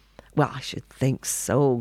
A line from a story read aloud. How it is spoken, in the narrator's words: grumbled the old woman